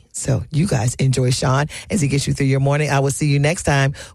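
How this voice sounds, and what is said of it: Slightly hoarse, strained voice. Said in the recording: “I'm still going to rest my voice ... that little case of slight laryngitis, the strained vocal cords got me”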